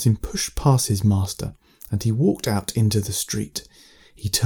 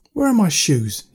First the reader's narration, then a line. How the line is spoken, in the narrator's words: cried